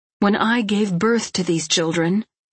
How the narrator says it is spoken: said Kristin bitterly

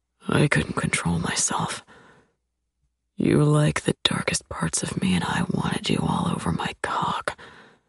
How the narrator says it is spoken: he rests his head against mine and murmurs

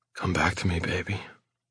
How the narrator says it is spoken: I whisper

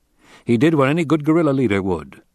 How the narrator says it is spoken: Paul said

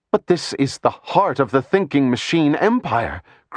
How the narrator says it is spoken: cried Calissa

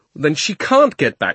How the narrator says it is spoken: shouted Diggory

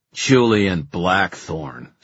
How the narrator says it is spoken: sneered Dearborn

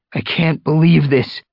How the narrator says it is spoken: he meowed, raising his voice above the howling wind

